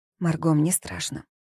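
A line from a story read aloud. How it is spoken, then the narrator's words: Frightened whisper. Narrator (Russian): прошептала Волга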